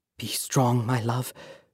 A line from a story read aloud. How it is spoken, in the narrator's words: his mother whisper